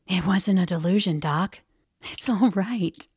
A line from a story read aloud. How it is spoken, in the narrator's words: stooping down over my bunk, whispered